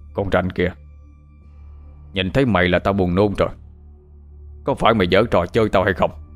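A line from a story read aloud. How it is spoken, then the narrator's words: Man shouting. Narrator (Vietnamese): ông quát lên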